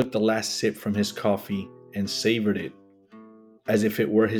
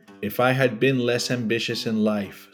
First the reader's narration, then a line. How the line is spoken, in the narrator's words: said your father